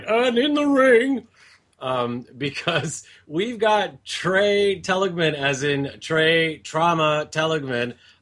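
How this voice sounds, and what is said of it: Boxing ring announcer voice. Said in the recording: “put on my announcer voice and introduce a fight”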